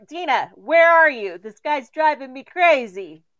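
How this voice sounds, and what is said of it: Slightly Italian-sounding accent. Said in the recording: “you sounded a little Italian there for a minute”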